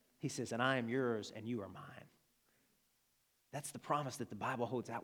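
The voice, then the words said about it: Southern American Arkansas accent. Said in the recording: “that's my Arkansan accent.”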